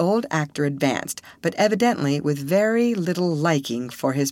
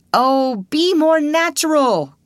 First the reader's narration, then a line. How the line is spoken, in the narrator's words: cried Mr